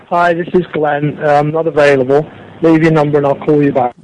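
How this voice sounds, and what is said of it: UK, New Zealand or South African accent. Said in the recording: “UK or New Zealand accent there? ... Sounded like it, yeah. Or South African.”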